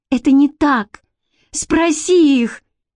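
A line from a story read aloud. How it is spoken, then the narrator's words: Hysterical cry. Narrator (Russian): истерически вскрикнула Бренна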